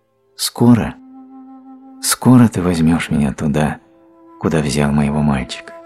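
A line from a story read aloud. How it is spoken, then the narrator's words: Quiet question. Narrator (Russian): можно тихо спросить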